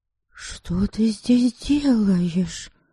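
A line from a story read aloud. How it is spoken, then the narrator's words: Hushed whispered question. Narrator (Russian): Шепотом спросила Ересава, не желая будить няньку и вообще привлекать чье-либо внимание к нежданной встрече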